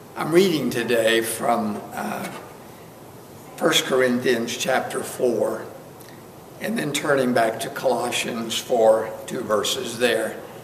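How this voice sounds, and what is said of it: Weak, not-yet-recovered voice. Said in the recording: “my voice is getting a little stronger... Pray that they will continue until the voice is back to normal”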